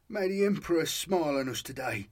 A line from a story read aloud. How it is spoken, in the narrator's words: he muttered